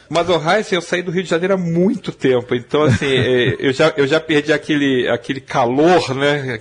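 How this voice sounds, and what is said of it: Rio de Janeiro Portuguese accent. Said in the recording (Portuguese): “o padrão do ... é padrão Rio de Janeiro ... principalmente do sotaque, né? De vez em quando dá aquela chiada clássica do Rio de Janeiro.”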